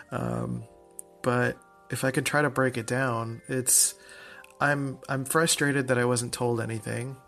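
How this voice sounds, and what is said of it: Flat, monotone voice. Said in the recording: “my voice is usually mon- monotone most of the time, so it's kind of hard to tell when I've got some emotion going on”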